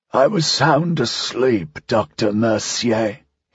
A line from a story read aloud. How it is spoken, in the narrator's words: he said, his voice still a painful croak